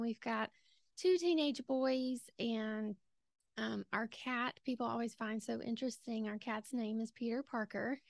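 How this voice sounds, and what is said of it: Southern US accent from Georgia. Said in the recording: “as you can tell from my accent, I am from Georgia. I'm sure people will think she's from somewhere in the South for sure... I love your accent”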